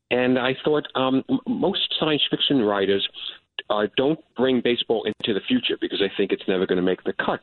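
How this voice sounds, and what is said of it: New York Bronx accent. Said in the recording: “I grew up in the shadow of Yankee Stadium. You can tell from my accent.”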